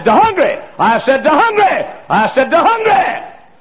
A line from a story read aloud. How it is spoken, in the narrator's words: hollered, and hollered, and hollered